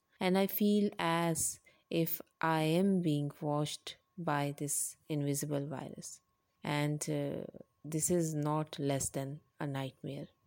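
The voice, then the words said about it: Asian-accented English. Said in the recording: “my Asian accent”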